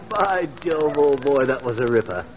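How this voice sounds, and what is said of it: Exaggerated fake posh British accent. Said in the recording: “a fellow with a British accent ... this Bond Street brogue ... you have no idea how awful you sound”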